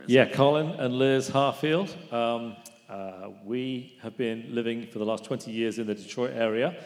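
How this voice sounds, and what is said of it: Slight foreign accent. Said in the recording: “Like you have an accent. Do you have an accent? I think I'm picking up a little bit of an accent there. ... Very, very small.”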